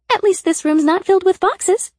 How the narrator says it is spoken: Sybil said cheerfully

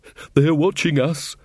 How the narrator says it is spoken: panted Taylor

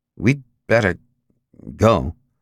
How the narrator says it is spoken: In a nervous voice, the man said to his wife

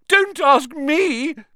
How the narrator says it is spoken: Myrtle shouted

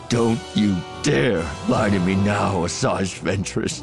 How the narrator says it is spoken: Voss snarled

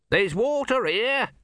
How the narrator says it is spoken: shouted Om

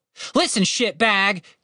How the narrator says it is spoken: Tim shouted

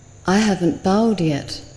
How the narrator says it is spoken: the monk said

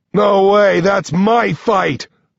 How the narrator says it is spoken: Nine yells

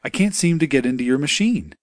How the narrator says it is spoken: said in a concerned voice

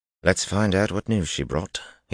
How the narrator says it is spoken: he said quietly

